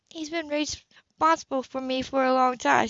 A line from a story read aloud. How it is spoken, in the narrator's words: she said quietly